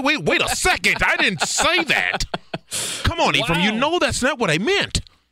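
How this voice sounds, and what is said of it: Stereotypical white guy voice. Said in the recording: “listen to you. You in the stereotypical white guy impression that you bring. I swear you bring this out at least one time.”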